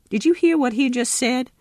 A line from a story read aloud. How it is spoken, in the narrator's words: sputtered Pappy